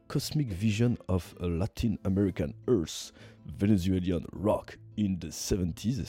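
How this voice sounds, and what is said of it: French-accented English pronunciation. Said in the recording (French): “toujours un accent magnifique”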